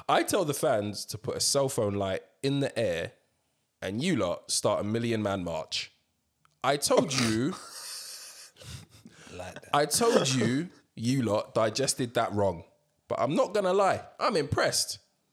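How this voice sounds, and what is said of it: Put-on English accent. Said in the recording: “I'm back to an English accent”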